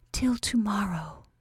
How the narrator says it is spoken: whispered

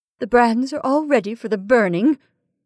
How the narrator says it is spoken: said his sister-in-law, in a hollow, trembling voice

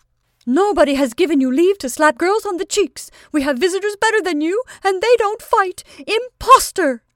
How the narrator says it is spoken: the tall, stout madam, who was shouting in a shrill voice

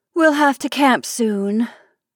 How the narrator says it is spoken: sighed Kate

